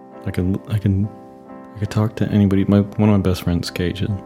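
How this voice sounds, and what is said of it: Whispering. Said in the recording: “I don't know why I keep whispering.”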